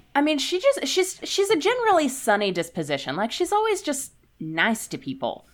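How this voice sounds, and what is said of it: Texas accent with Boston influence. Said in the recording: “I've still got my Texas accent, but it's being slowly Bostonified”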